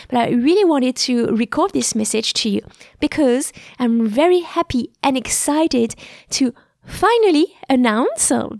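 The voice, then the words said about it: Blocked nose, slightly hoarse voice. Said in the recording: “I've been recovering from a cold, so my nose is still a little bit blocked and my voice may sound a bit hoarse.”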